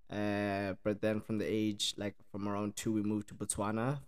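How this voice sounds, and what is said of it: Mixed South African and Irish accent. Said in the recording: “So the accent is a mix, eh? It's a mix. So I'm originally South African ... Ireland, the Republic of Ireland, down south, County Cork”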